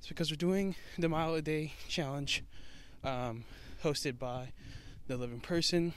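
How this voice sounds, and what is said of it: Out of breath while walking. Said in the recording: “out of breath”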